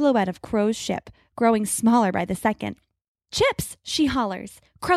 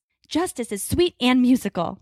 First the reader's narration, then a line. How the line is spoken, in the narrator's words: Grace snarls